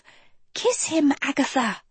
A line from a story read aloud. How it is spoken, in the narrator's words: she whispered